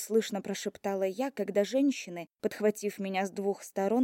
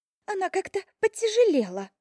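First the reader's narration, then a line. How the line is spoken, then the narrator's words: Squeaky, straining. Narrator (Russian): пропищала вторая, с трудом удерживая равновесие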